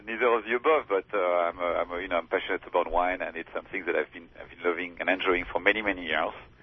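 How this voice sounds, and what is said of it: French accent. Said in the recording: “that cool French accent”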